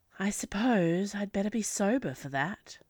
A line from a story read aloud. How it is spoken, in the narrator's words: sighed Chase